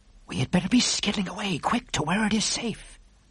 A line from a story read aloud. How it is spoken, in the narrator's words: the BFG whispered